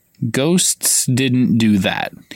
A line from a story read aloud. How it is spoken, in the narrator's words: he said slowly